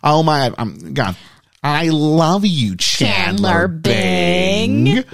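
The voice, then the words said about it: Imitates a nasal sitcom character voice. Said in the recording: “they all do their Janice impressions ... I'm going Fran Dresser from The Nanny. Very similar”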